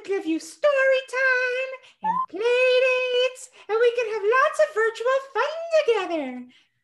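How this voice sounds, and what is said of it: Elmo character voice impression. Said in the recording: “give it a grade. A B plus ... You don't have the accent down, but it's really good ... I add like a little bit of Long Island in there”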